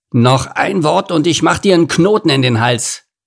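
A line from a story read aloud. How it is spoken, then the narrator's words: Growling. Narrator (German): knurrte Lord Nase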